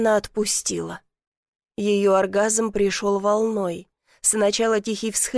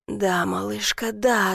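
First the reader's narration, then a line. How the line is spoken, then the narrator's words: Hoarse. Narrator (Russian): ответил хрипло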